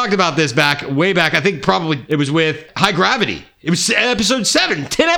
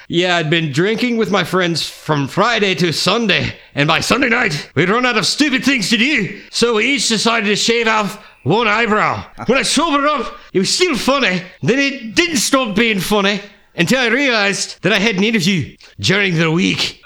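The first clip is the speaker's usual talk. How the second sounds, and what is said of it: Put-on Scottish accent. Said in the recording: “my best Scottish impression ... That's not bad. It's not bad at all.”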